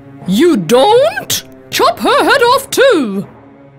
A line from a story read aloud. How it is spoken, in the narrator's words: The Queen yelled furiously